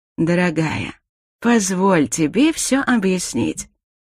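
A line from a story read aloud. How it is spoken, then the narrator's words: Gentle. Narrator (Russian): ласково произнес Дарил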